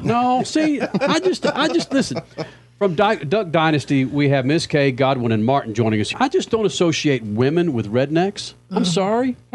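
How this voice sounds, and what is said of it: Southern American accent. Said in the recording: “I've got a Southern accent... born and raised in Dallas”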